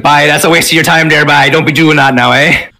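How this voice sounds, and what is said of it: Put-on Newfoundland accent. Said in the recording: “we even got the newfie accent in here. Nice.”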